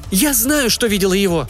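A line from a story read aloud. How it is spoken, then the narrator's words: Irritated shout. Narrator (Russian): закричала мама раздраженно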